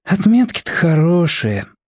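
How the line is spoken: Sighing. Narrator (Russian): вздохнул Тоник

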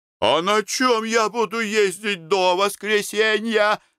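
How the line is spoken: Yelling. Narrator (Russian): завопил завхоз

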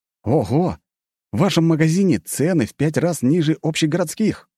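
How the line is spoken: Exclaimed. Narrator (Russian): воскликнул я

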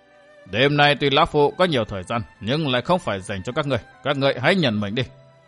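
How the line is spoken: Cold sinister laughing voice. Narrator (Vietnamese): Cất giọng cười âm lạnh, sát cơ lóe lên trong mắt, Vạn Thế Hảo lạnh lùng nói

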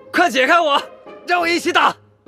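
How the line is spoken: Anxious muffled shout. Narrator (Chinese): 急着荣浩在地上麻袋里喊

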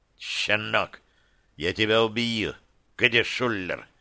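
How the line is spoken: Hissed. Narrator (Russian): прошипел он

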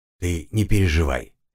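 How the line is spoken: Soft. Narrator (Russian): мягко произнес

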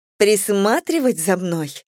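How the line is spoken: Laughing. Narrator (Russian): Я рассмеялась

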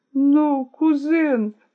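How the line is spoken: Through sobs. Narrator (Russian): послышалось сквозь рыдание

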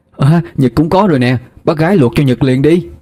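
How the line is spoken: Excited cheerful call. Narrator (Vietnamese): Nhật phải reo lên, chạy nhanh tới bác gái mà nói

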